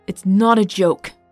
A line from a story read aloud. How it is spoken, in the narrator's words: Odax snapped, trembling with grief